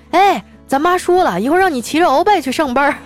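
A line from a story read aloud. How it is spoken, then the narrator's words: Shouting. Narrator (Chinese): 我老公……朝我喊说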